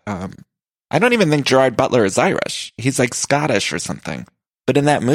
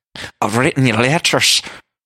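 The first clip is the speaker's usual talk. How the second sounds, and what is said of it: Exaggerated put-on Irish accent. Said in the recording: “that Irish accent... sounds like he swallowed a spoonful of peanut butter and started doing his best Lucky Charms accent”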